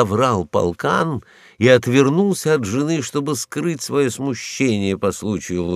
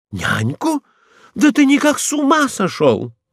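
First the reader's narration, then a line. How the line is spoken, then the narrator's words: Exclamation. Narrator (Russian): воскликнул Рагуля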